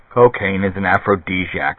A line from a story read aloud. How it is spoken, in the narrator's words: Barris muttered, half to himself